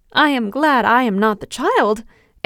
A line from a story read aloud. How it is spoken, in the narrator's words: exclaimed Barbel